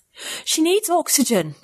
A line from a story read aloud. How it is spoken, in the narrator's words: I gasped again